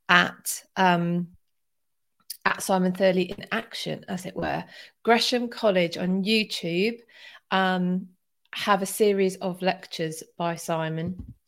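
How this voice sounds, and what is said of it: Croaky voice. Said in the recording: “my voice is a little bit croaky”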